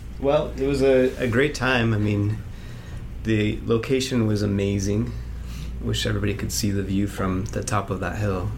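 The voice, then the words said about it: British accent. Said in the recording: “our return guest from the UK ... You'll recognize him by his accent”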